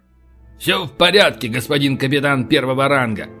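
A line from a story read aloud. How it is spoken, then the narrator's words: Playful bark. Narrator (Russian): Дурачась, рявкнул полубой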